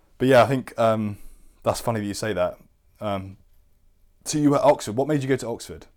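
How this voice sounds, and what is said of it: Posh English accent. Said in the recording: “They think I'm the poshest person there. So my accent to them is posh. ... you're fucking posh”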